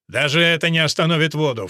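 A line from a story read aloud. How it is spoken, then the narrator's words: Snorting. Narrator (Russian): фыркнул Элфрик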